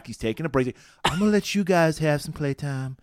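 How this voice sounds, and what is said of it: Imitated Lansing accent. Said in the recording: “that was a perfect Lansing accent.”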